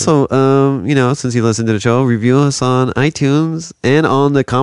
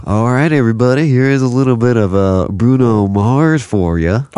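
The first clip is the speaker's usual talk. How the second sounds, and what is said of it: Radio DJ announcer voice. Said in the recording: “you could be like on the radio ... your golden voice ... It's a weird voice”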